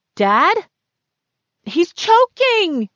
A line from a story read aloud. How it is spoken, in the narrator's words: yelled Dexter